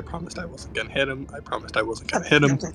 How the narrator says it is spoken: Wrong with and Bombay is just muttering to himself

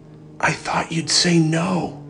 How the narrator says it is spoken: she whispered, barely audibly

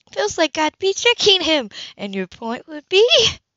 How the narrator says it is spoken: Grace chuckled and gave up

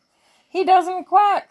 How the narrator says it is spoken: squealed the pigs

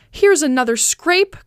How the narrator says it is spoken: cried Cunegonde

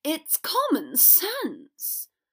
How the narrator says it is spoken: Draco hissed

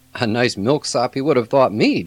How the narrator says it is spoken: John laughed

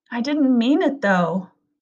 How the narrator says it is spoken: Connor said, his voice rising

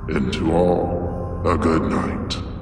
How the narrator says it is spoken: Silas smiled and added in his deep, raspy voice

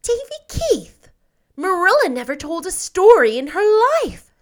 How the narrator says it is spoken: said Anne indignantly

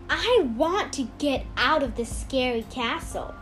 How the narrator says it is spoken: Angela sighed

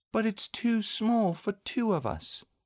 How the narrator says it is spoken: said Christopher Robin sadly

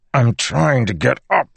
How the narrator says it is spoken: he said through gritted teeth

